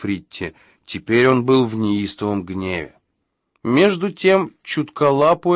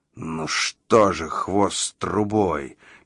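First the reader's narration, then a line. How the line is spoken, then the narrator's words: Hiss. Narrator (Russian): прошипел чутколап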